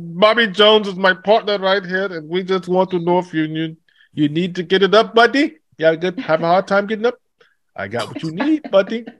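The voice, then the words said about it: Put-on Indian English accent. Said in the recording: “with an Indian accent”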